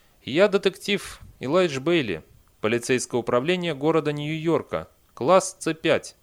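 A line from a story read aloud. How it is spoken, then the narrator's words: Flat expressionless voice. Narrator (Russian): Бейли сказал невыразительным голосом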